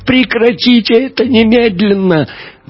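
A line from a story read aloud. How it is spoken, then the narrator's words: Howling wail. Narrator (Russian): Мария взвыла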